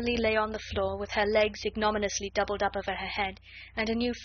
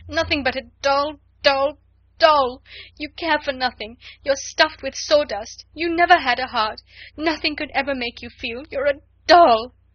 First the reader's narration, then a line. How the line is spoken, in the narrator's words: she cried